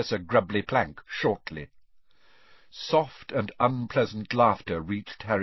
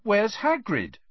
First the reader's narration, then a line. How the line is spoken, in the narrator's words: Harry repeated loudly